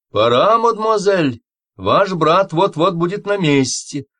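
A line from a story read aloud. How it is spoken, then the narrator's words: Maid shouting through door. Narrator (Russian): Ан-Мари, горничная Каравеллы, крикнула из-за двери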